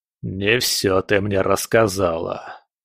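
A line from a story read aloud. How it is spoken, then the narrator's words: Through gritted teeth. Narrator (Russian): процедил Легба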